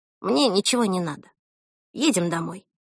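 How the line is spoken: Quiet. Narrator (Russian): тихо сказала

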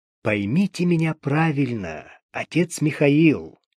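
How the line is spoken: Soft, confiding tone. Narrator (Russian): Лев старался говорить самым доверительным, мягким тоном

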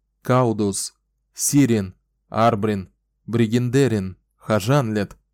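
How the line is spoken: Loud announcement. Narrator (Russian): Громко объявил, чтобы все могли его слышать

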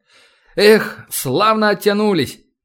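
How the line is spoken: Exclamation. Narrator (Russian): воскликнул Старгородский

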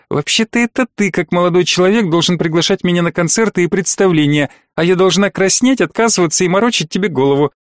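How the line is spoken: Snide young woman. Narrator (Russian): ехидно заметила девушка

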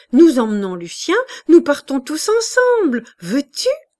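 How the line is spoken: Exclaiming. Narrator (French): s'écria Juliette

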